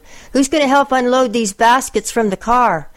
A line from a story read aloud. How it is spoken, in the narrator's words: we shouted